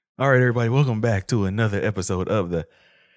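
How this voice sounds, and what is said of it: Runs out of breath mid-sentence. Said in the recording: “ran out of breath”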